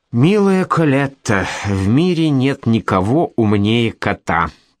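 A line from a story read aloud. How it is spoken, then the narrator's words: Purring. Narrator (Russian): промурлыкал Макс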